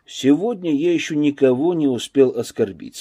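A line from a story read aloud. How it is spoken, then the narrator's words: Calm reply. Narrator (Russian): спокойно ответил Данилов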